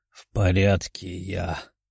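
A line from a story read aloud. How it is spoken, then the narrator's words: Muttered. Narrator (Russian): пробормотал он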